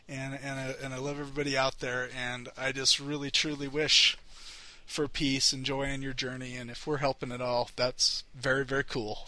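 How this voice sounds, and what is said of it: Emotional, choked-up voice. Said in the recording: “gotten a little emotional here”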